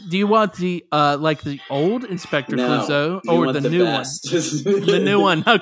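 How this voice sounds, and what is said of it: Usual voice. Nothing is said of it.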